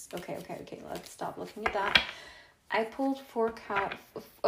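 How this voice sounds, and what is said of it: Sudden odd put-on accent. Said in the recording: “What was that accent?”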